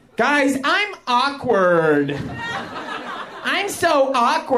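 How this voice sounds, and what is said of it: Usual voice. Nothing is said of it.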